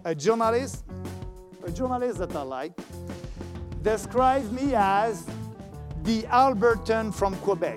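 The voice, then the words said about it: Heavily accented English. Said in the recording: “despite my bad accent”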